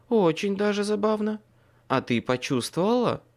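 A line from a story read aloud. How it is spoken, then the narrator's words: Uncertain speech. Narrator (Russian): неуверенно произнес я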